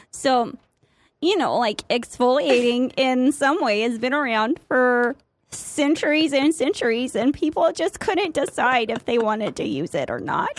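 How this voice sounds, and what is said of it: Put-on Midwestern mom accent. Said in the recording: “the one accent I'm really good at ... Midwestern mom voice ... It's also my drunk girl voice ... in your Midwestern voice ... It was offensive, but it was good.”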